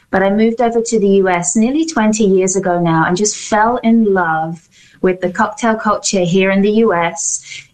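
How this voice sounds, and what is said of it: London English accent. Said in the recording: “I'm from London. That's where the accent is from.”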